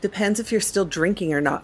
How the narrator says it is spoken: Frost replied coldly

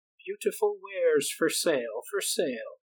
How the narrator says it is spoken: she called out

